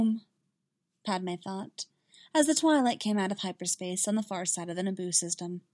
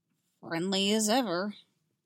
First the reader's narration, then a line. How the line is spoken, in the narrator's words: Ani muttered